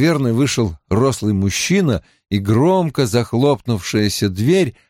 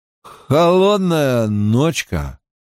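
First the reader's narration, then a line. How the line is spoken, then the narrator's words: Drunken voice. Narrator (Russian): произнес он нетрезвым голосом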